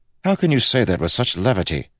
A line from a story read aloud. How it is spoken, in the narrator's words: snapped Kel